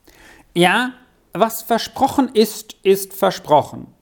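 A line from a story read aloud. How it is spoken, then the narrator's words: Loud. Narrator (German): sagte er dann laut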